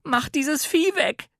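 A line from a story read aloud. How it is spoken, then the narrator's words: Screaming. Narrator (German): schrie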